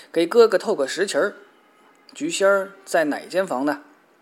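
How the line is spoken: Loud call. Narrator (Chinese): 他高声一唤

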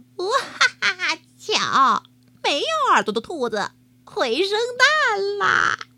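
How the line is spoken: Mocking laughter. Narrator (Chinese): 其他的兔子都笑他说

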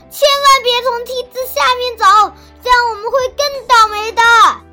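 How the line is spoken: Chubby child's loud shout. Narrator (Chinese): 小胖墩儿高声喊道

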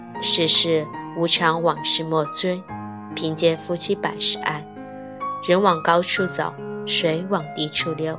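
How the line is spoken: Sighing, lamenting. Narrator (Chinese): 感叹了几句

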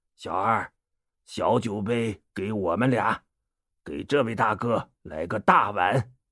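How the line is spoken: Laughing. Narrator (Chinese): 宋江笑了起来

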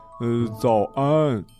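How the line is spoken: Smiling reply. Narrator (Chinese): 艾玛也总是笑着回答

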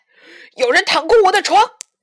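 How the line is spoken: Sudden roar. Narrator (Chinese): 熊爸爸突然咆哮起来

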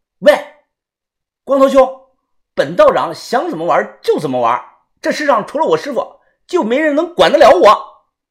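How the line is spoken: Loud brash voice. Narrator (Chinese): 小道士大声的说

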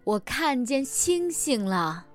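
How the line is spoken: Loud shout. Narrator (Chinese): 他大喊了一声，就像他很久很久以前那样大声喊道

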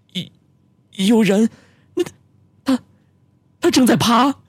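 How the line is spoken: Trembling, frightened voice. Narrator (Chinese): 声音发颤的说

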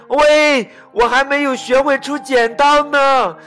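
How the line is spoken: Loud shout. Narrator (Chinese): 大猩猩大声的喊

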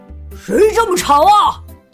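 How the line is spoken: Loud roar. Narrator (Chinese): 他大声吼道

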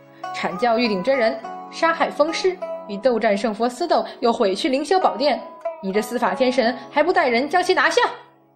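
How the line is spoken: Stern, sharp interruption. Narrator (Chinese): 玉皇大帝忽地抢过话来，厉声道

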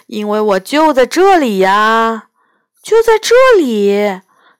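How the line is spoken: Sighing. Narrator (Chinese): 彼岸叹了口气儿说

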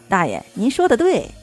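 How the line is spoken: Cheerful, grinning. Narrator (Chinese): 周木川笑嘻嘻回道

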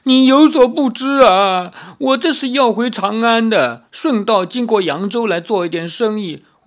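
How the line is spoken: Crying. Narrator (Chinese): 那富商哭着说

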